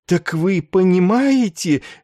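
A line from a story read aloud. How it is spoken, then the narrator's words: Happy exclamation. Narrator (Russian): от счастья воскликнул он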